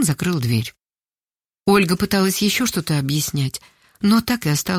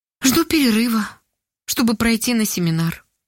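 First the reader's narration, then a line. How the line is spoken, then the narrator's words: Sad reply. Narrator (Russian): грустно ответила Ольга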